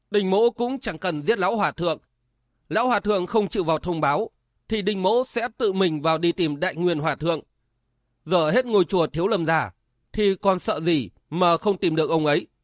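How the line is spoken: Loud and cold. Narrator (Vietnamese): Đinh Tiểu Nam lớn tiếng lạnh lùng

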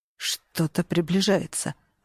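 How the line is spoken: Whisper. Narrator (Russian): прошептал он

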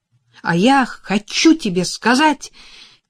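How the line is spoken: Shouting over engine noise. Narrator (Russian): крикнула она, стараясь перекрыть грохот двигателя

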